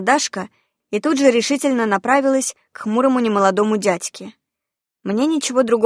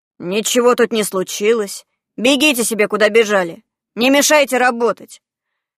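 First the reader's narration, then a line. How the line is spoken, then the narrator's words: Displeased grumbling. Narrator (Russian): его недовольное ворчание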